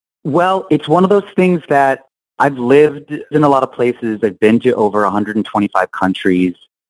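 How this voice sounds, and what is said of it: New Orleans accent. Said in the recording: “How much of your accent is affected? Because you sound like you're from New Orleans.”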